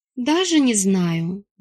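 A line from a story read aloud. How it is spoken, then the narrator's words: Sighing. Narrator (Russian): вздохнула я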